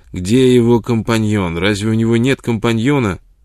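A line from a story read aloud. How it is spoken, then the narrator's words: Irritated, repetitive. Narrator (Russian): Какой-то человек в сотый раз повторял раздраженным тоном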